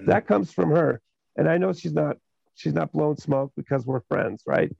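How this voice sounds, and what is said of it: Hoarse voice. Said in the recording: “Sorry, I'm so hoarse, guys. I got sinuses from the damn weather.”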